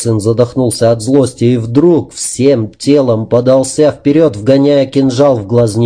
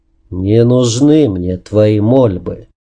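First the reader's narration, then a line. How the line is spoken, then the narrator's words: Unexpectedly sad. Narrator (Russian): неожиданно печально сказал рыцарь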